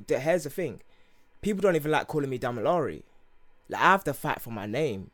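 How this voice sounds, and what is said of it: Rough accent. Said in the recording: “my accent is not going to change at all ... this is my accent, bruv ... this rough accent right here”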